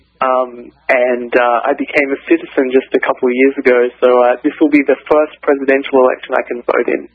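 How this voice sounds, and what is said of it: Australian accent. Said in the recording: “You seem to have an accent. ... I was born and raised in Australia”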